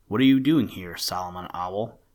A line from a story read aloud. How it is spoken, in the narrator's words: asked in a low voice, which was not any too pleasant